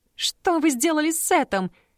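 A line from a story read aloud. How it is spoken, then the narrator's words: Shouted. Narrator (Russian): закричала Дана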